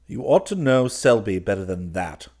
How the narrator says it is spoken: growled Clifford behind the door

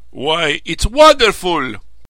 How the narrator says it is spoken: cried Tullydub

